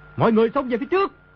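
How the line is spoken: Desperate loud shout. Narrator (Vietnamese): Đồ Nhĩ Bố Thanh thầm kêu khổ, quát lớn

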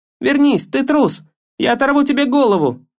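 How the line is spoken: Shouting. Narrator (Russian): кричал Атрей

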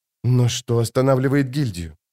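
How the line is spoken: Whisper. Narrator (Russian): прошептала Джессика

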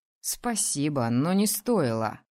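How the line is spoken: Wry snort. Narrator (Russian): хмыкнул он

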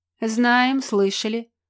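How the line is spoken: Grumbling. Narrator (Russian): проворчал Килька

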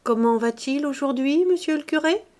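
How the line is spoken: Timid question. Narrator (French): demandait Mouret au prêtre timidement

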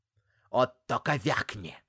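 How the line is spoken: Growled. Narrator (Russian): зарычала Галина

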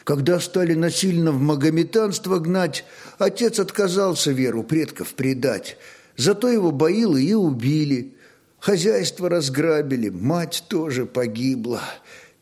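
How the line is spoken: Child's heavy sigh. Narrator (Russian): тяжко вздохнул малец

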